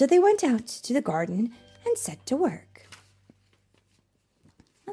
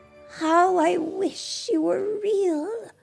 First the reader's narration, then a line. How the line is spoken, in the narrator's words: sighed his wife